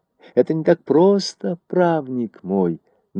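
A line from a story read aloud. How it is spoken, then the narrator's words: Gentle. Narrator (Russian): начал он мягко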